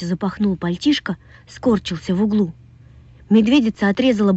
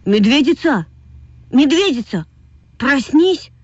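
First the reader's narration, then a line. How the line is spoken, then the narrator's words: Anguished shout. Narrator (Russian): в тоске закричал Вася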